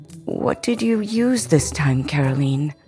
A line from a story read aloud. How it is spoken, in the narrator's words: Mama asked with a sigh